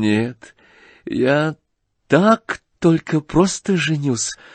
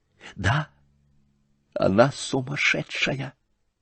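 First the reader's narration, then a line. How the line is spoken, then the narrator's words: Whisper. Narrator (Russian): прошептал он бледнее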